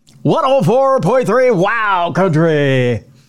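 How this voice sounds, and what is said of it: Put-on radio announcer voice. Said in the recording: “Haven't broke that voice out in a while. ... I don't have a radio voice.”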